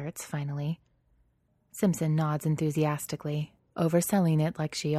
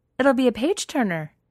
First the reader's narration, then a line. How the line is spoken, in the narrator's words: she says brightly